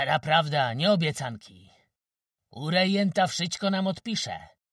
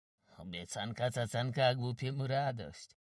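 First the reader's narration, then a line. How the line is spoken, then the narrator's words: Muttered. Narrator (Polish): mruknął Płoszka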